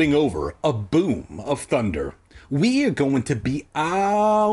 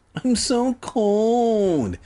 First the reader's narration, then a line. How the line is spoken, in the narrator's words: Sheena whined, like a little bitch